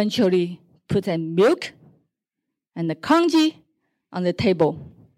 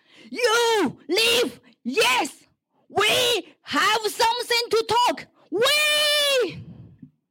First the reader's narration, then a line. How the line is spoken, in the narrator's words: yelled like the crazy bitch with the tears